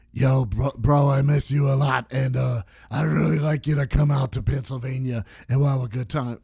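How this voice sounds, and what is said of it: Imitates a smoker's voice. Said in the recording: “I should do the voice on ... I can't do the voice. He's a smoker.”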